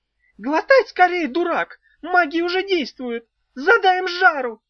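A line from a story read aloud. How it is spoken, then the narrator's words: Tiny creature shrieking. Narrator (Russian): завопила двухдюймовочка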